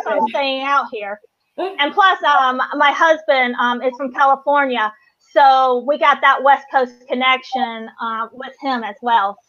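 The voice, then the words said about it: North Carolina Southern US accent. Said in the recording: “I'm from North Carolina ... the day I lose my accent is the day I'm moving back. Well, I haven't lost my accent yet”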